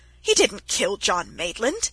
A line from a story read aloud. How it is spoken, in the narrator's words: he cried angrily